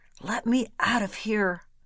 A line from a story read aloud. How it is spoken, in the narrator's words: He muttered